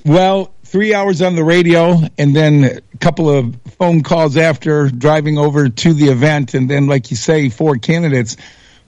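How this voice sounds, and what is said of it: Worn-out, nearly lost voice. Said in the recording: “my voice is almost gone”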